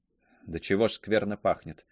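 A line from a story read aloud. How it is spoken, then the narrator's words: Muttering. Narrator (Russian): пробормотала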